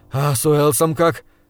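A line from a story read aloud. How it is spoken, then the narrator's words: Breathed out. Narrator (Russian): выдохнул я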